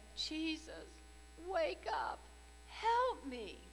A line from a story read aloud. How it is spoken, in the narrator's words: Jesus plead